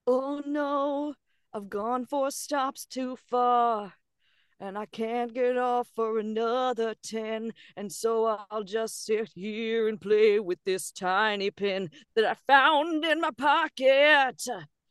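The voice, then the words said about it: Sung, improvised musical delivery. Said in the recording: “Musical Impressions ... do a musical impression”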